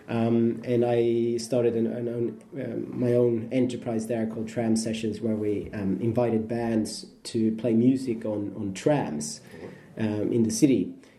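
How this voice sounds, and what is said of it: Slight Australian accent. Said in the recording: “I lived there for 7 years, as you probably hear from my dialect, a bit of an Aussie slang there”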